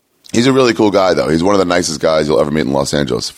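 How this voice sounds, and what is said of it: Hoarse, worn-out voice. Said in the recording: “My voice is shot to fuck... my voice is just not caught up”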